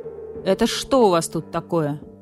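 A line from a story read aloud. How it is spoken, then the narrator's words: Stern question. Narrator (Russian): строго спросил барсук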